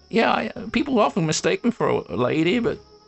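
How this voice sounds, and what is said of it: Creaky high-pitched old man voice. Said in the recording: “It's that creaky high voice”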